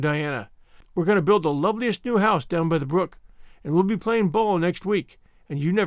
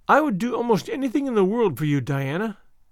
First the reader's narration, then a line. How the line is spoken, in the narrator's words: said Anne sadly